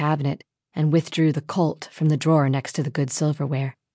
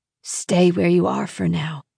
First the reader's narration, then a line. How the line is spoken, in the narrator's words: whispered, his voice cracking